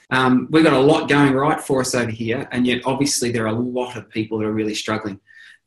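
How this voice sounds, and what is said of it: Australian accent. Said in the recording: “I live in Australia, probably haven't picked that from my accent”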